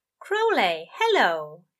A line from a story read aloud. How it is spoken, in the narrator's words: said brightly